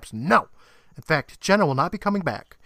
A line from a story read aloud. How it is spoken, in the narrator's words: Miss Breyer snaps